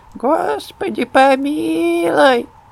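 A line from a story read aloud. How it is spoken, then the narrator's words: Thin squeaky voice. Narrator (Russian): а она тоненьким голосочком, как индюшка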